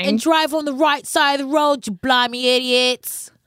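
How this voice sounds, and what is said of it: Put-on British accent. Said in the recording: “this accent's going to be with us all season ... I'd like to apologize to the UK.”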